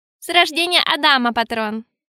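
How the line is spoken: Amused grunt. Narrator (Russian): хмыкнул Рабан

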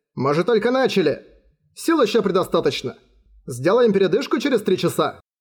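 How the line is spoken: Plain. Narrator (Russian): ответил Ван Джен

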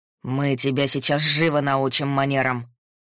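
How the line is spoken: Growl. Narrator (Russian): прорычал Пётр

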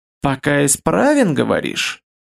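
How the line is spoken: Purring. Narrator (Russian): Промурлыкал Ралаш

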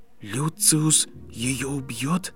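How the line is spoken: Barely audible. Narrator (Russian): едва слышно выговорил Гарри

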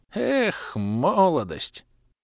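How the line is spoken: Sighing old woman. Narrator (Russian): вздохнула старушка

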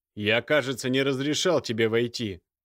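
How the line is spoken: Stern. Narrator (Russian): произнес Михаил, строго

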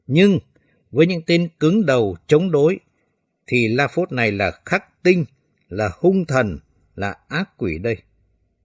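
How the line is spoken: Gritted, harsh voice. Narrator (Vietnamese): gằn giọng

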